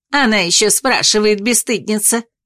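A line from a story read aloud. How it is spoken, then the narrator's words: Contemptuous snort. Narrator (Russian): Фыркнула та презрительно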